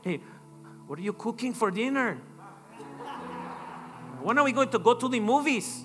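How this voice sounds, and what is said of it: English with put-on Mexican accent. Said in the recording (Spanish): “hablar inglés con acento mexicano ... hablando como”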